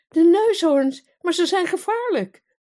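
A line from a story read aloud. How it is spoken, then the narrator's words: Queen calling out. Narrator (Dutch): riep de koningin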